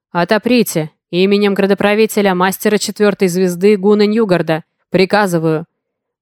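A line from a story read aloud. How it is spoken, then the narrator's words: Booming muffled voice. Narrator (Russian): Прогудели с той стороны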